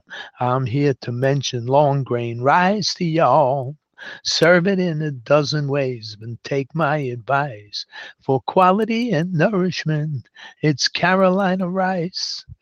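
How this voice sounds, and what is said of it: Southern Carolina drawl. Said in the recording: “I'm from Carolina, so pardon my drawl.”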